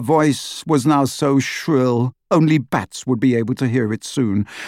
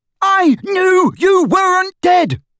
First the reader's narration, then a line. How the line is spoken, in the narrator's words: bellowed Ron, drowning her voice for the first time